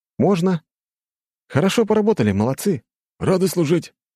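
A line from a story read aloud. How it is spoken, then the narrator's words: Cheerful chuckle. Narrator (Russian): радостно усмехнулся Макс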